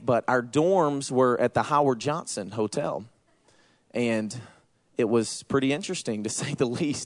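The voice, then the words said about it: Southern American accent. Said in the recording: “I say y'all because I'm from Georgia... I have a southern accent.”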